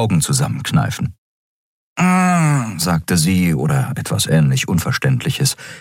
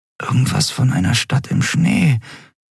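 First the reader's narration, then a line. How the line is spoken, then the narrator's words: Murmured. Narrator (German): murmelte Endriel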